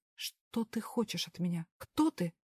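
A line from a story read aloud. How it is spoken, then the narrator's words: Hissing. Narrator (Russian): прошипела я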